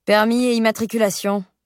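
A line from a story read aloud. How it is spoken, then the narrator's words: Jaded officer's voice. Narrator (French): lâche l'agent d'une voix blasée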